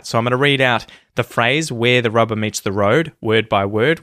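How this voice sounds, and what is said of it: Australian accent. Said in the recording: “your Australian pronunciation, your Aussie accent”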